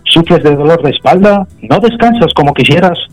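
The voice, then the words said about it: TV commercial announcer voice. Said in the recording (Spanish): “poner voz de anuncio televisivo”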